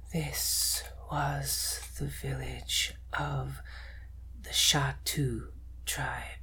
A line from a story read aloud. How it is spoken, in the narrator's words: the spirit says in a hollow, empty voice